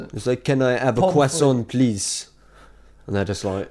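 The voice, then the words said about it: English spoken in mock French accent. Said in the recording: “I'm that guy that like goes to France and then speaks English in a French accent ... I speak English in a French accent”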